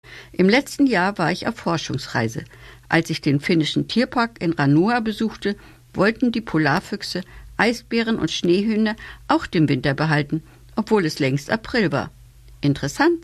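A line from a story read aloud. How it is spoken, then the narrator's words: Plain. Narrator (German): sagte Otto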